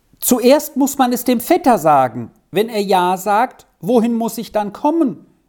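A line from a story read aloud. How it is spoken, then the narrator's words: Calling after someone. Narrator (German): rief Vinzi dem Forteilenden nach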